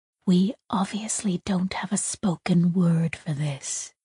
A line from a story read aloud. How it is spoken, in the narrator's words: Tak whispered